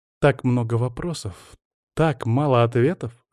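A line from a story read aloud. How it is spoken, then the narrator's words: Mock-philosophical tone. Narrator (Russian): философским тоном заметила Мира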